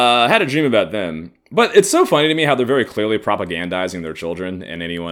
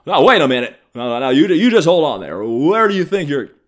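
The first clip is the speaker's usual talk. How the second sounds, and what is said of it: Jimmy Stewart impression. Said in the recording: “It's my Jimmy Stewart impression.”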